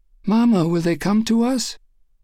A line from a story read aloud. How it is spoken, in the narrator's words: a little girl ask in a trembling voice